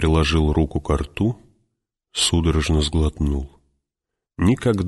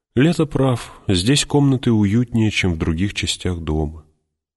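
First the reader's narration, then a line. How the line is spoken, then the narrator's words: Deep sigh, then speaking. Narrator (Russian): глубоко вздохнула и сказала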